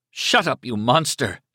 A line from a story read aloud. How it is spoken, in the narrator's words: she spat at him